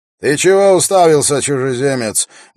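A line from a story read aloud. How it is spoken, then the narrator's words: Rough guard's question. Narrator (Russian): грубо спросил охранник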